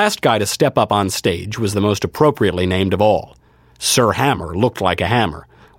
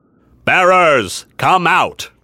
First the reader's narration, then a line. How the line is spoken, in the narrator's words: He had a deep, booming voice that seemed intended to reach the entire army